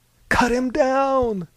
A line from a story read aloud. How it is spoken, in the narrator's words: a lady screamed